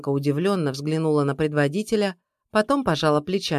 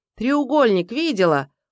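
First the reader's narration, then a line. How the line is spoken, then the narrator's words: Shout. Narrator (Russian): крикнул Савелий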